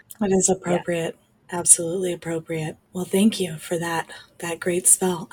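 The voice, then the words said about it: Hoarse, fading voice. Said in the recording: “my voice is now going away ... when she was sick ... she just sounded really sexy”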